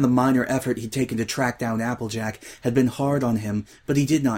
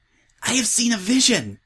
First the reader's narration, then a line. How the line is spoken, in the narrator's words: said Twilight, wheezing for breath